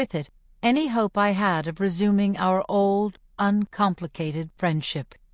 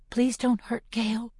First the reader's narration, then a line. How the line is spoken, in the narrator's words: I whisper